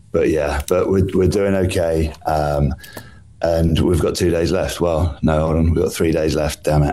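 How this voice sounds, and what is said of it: Tired, worn-out voice. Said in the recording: “I'm definitely feeling more jaded this morning than I have done at any part of the trip ... You can probably hear in my voice”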